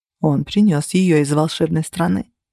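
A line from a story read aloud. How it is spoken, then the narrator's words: Plain. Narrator (Russian): сказал Альф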